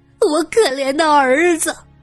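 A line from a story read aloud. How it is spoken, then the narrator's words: Wailing. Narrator (Chinese): 六姨娘闻言大哭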